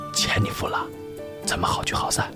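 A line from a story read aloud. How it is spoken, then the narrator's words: Low, head-down murmur. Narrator (Chinese): 可乐先生埋头低声说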